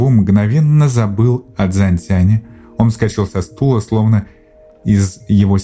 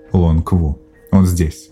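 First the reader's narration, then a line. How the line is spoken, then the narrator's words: Whispered into ear. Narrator (Russian): Лонг Гэйтян прошептал в ухо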